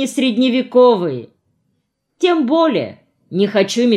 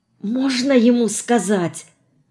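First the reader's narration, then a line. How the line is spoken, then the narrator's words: Whispering. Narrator (Russian): шепнула Марина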